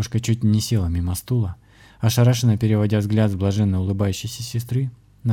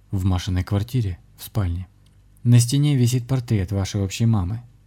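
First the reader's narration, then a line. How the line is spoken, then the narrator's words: Even, flat voice. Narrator (Russian): ровным голосом начал говорить Александр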